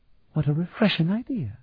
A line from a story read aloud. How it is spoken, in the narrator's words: she murmured